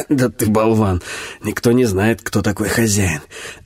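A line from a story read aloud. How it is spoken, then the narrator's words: Hoarse, pained laugh. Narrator (Russian): Якорь хрипло засмеялся сквозь гримасу боли, потом сказал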